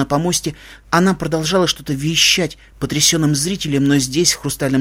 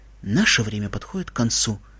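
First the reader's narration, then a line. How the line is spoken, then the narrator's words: Quiet. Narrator (Russian): тихо сказала Селестия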